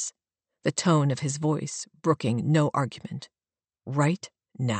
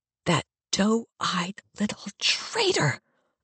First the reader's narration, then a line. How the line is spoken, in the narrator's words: I hiss